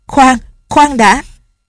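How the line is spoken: Pained shout. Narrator (Vietnamese): Lệnh Hồ Xung khom lưng, tay trái ôm bụng, la lên

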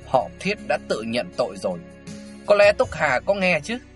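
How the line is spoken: Sneering tone. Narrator (Vietnamese): Triệu Chí Nghĩa cười nhạt

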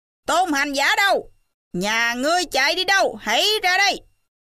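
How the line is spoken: Loud calling. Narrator (Vietnamese): ma em lớn tiếng gọi

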